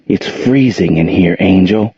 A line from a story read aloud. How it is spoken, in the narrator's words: said Gerald gently